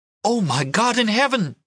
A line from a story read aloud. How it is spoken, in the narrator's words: she gasped